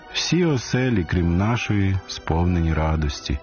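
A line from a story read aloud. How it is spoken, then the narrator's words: Sighing father. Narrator (Ukrainian): зітхнув батько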